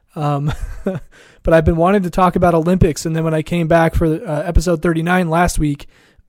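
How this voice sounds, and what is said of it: Rough, sick-sounding voice. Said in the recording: “My voice is still kind of gross, as you'll probably hear throughout this episode ... I came down with the flu”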